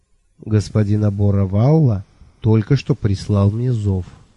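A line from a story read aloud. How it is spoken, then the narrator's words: Calm statement. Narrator (Russian): спокойно сообщил сэр Шурф Лонли Локли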